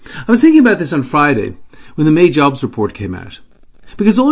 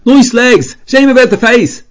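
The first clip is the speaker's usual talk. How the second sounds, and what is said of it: Fake North Dublin accent, yelled. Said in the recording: “yelled out, in a fake North Dublin accent”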